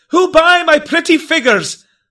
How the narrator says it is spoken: loudly he did cry

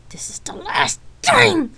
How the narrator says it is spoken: shouted to the heavens

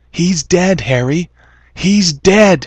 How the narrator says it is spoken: his mind screamed

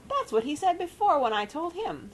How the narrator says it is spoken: squeaked Rosie indignantly

